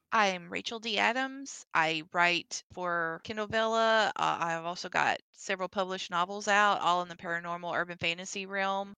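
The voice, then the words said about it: Southern United States accent. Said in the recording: “I'm from the southern United States. And so some of the times when you hear me talk, that's why I've got such an accent.”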